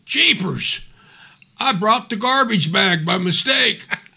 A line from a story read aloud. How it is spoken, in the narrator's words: exclaimed